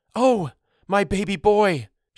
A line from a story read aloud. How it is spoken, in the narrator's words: she exclaimed, shocked